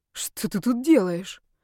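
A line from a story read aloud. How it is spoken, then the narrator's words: Shaken breathless. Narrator (Russian): выдохнула я, не сразу придя в себя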